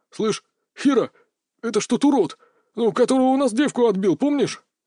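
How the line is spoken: Bewildered mumble. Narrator (Russian): растерянно пробормотал один из них

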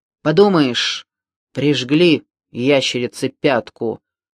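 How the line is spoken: Grumbling mutter. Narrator (Russian): буркнул Коптилка

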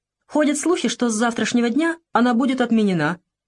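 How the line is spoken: Cheerful joking. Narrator (Russian): весело пошутил Якушев

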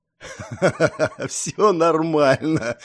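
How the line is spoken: Forced through laughter. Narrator (Russian): сквозь смех протолкнул Пило

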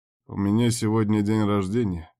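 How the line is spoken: Lazy offhand remark. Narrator (Russian): лениво обронил

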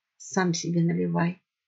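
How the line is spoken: Gruff fox mutter. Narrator (Russian): буркнул лис

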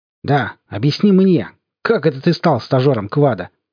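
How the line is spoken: Sharp question. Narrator (Russian): спросил он резким голосом

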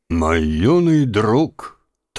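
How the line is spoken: Solemn, old man. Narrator (Russian): торжественно произнес старик

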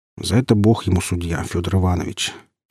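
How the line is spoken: Quiet reply. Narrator (Russian): тихо ответил я

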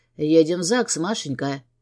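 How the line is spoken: Hoarse command. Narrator (Russian): хриплым голосом приказывает Гордей

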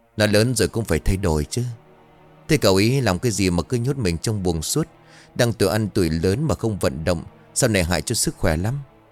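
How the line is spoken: Smiling old woman. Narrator (Vietnamese): Bà Kiểm mỉm cười

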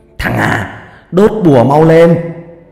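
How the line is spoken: Urgent shout. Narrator (Vietnamese): Ông hét lên

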